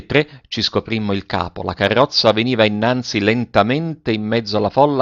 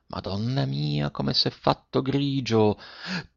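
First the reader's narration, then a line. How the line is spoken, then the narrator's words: Softly. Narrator (Italian): disse piano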